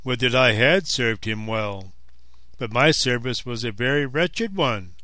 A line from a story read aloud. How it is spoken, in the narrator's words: sighed the other